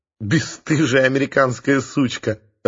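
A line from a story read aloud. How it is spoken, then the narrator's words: Laughing. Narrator (Russian): рассмеялась Оксана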